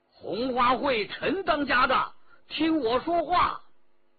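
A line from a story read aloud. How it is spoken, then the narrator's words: Shout. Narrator (Chinese): 只听得有人叫道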